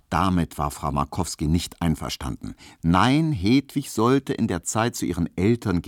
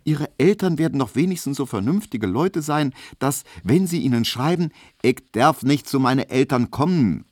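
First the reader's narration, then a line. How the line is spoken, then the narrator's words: Called out. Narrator (German): rief Hedwig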